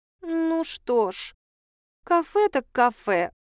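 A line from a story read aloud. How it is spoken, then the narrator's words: Disappointed drawl. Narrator (Russian): протянула журналистка с явным разочарованием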